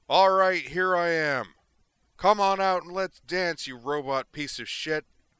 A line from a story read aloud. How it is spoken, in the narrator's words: he inflated his lungs and bellowed